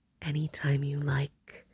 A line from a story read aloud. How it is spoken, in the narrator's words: Harold repeated softly